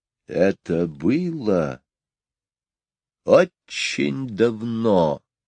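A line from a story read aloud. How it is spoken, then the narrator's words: Mesmerizing storytelling tone. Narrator (Russian): начала Мэри Поппинс завораживающим тоном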